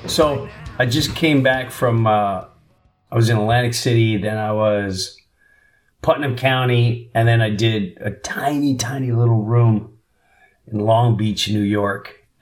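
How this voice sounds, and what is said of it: Hoarse, worn-out voice. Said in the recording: “my voice is shot ... it rips my throat to pieces”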